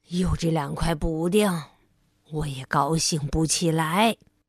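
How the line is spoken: Mumbling. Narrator (Chinese): 嘟嘟囔囔

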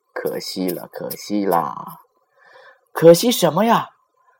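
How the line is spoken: Lip smack, sighing. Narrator (Chinese): 咂了下嘴，一边叹气

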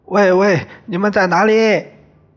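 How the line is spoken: Calling out. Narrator (Chinese): 有庆对着他们叫

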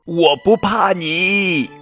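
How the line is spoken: Hearty laughter, big bear. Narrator (Chinese): 大白熊哈哈大笑

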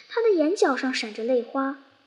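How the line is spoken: Old sheep sighing. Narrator (Chinese): 一头长胡须老羊叹息说

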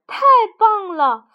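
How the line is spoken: Loud. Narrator (Chinese): 弗洛格大声说

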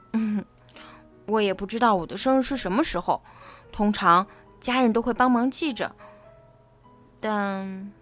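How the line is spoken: Voice trailing off low. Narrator (Chinese): 他的声音低下去

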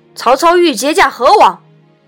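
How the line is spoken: Loud shout. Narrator (Chinese): 徐晃大叫

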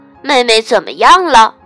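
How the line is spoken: Shouting. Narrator (Chinese): 小熊哥哥喊道

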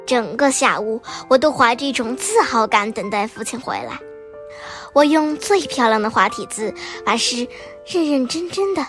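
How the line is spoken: Mother, smiling. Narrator (Chinese): 母亲笑着说

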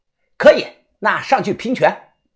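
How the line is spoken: Shouting. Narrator (Chinese): 我大声的喊道

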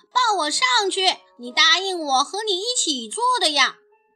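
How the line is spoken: Loud shout. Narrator (Chinese): 大声叫道

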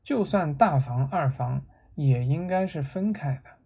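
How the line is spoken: Soft voice. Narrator (Chinese): 梅瑞轻声说

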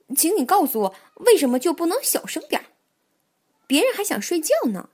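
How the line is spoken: Sudden loud shout. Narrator (Chinese): 蹦蹦突然大声喊道

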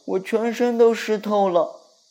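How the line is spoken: Small creature's startled cry. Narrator (Chinese): 小鼹鼠惊叫道

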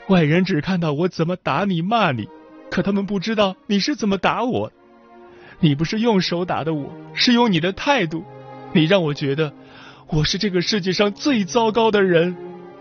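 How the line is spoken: Crying. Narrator (Chinese): 妻子曾哭着对他说

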